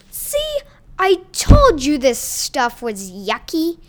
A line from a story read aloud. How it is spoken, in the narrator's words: Pizza Man exclaimed